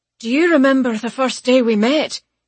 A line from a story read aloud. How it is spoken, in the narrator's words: blurts